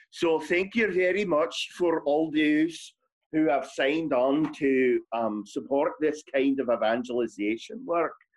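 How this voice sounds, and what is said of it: Put-on Scottish accent. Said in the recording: “Accent time. You got to do accent. ... I guess I'll go with Scottish.”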